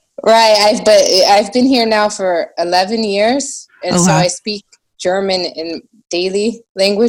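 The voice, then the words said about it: American English with slight German accent. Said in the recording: “I think you do. You sound a little bit German ... probably why I have a bit of an accent”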